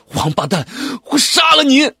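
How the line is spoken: Shouting. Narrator (Chinese): 我大喊了一声

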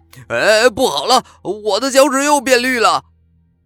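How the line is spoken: Anguished scream. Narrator (Chinese): 肉丁又是一声惨叫

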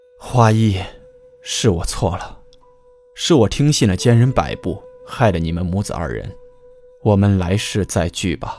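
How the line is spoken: Cold, long sigh. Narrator (Chinese): 凉声长叹

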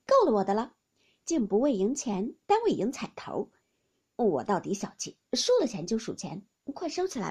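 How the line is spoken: Laughing. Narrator (Chinese): 凤姐向众人笑道

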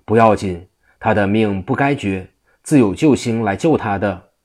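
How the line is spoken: Laughing. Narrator (Chinese): 济公笑道

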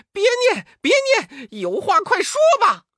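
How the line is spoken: Crying out in pain. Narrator (Chinese): 悟空禁不住疼痛，叫道

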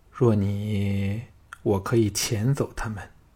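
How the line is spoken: Sighing, soft-spoken woman. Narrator (Chinese): 平原夫人忽地叹了一口气……轻声说

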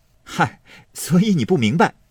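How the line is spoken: Laughing. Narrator (Chinese): 宝玉笑道

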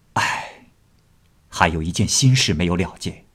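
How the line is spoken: Sighing. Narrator (Chinese): 乔生叹了口气说

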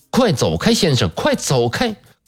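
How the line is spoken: Stern sharp shout. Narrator (Chinese): 戴维尔夫人厉声地喝道

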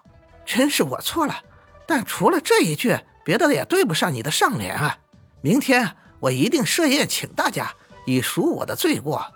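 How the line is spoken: Laughing. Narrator (Chinese): 狐女笑道

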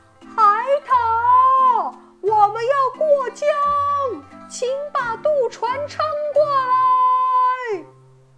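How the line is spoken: Loud calling. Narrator (Chinese): 猴子大声喊道

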